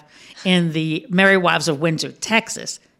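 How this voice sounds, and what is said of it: Put-on Texas accent. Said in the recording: “You getting my Texas accent?”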